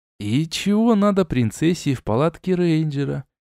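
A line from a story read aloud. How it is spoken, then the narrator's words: Quiet inquiry. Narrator (Russian): тихо осведомился я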